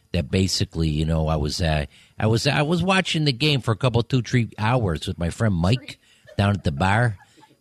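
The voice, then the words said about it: Put-on heavy Chicago accent. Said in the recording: “the Chicago accent is a very hardcore accent ... it's a very hard accent on your ear ... that's what Chicago people sound like ... When I do that accent for people in London, they think it's the worst Irish accent”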